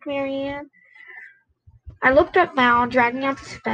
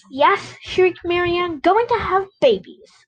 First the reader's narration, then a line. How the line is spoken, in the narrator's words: I exclaimed